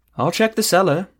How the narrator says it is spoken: Ethramel chirped

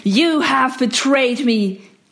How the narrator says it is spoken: he roared

